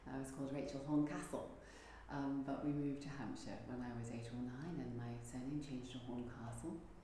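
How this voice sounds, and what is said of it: English accent. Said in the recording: “I'm originally English. You may be able to tell from the accent.”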